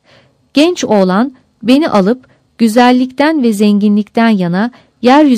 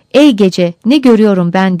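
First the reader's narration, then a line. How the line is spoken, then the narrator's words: Crying out. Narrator (Turkish): diye haykırırım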